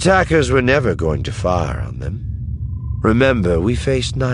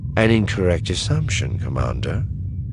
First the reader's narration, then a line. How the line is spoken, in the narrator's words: Thrawn said calmly